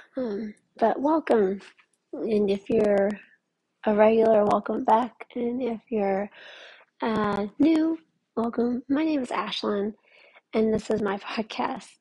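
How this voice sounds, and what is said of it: Sounds a little sick. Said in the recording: “I sound a little sick.”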